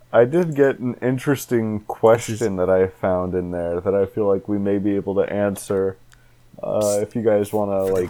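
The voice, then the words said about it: Put-on podcast host voice. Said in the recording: “podcast voice. ... this is called ... bit voice.”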